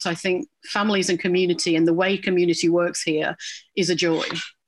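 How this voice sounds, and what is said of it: Non-local accent, not Newfoundland. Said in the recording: “My accent will say quite clearly I'm not from here”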